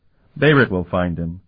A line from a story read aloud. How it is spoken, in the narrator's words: Calton laughed